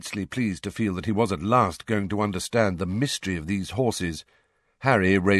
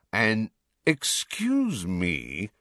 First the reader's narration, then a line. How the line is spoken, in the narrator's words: said Malfoy in a sneering voice